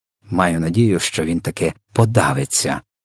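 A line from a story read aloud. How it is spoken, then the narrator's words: Grumbling. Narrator (Ukrainian): буркнула Софія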